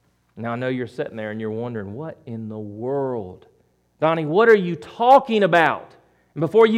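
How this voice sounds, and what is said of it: Usual voice. Nothing is said of it.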